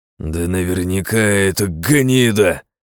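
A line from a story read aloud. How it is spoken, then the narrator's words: Borzoi's growl. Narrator (Russian): зарычал борзой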